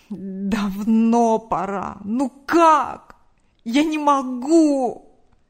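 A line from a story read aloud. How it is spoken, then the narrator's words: Man's moan. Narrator (Russian): Простонал мужчина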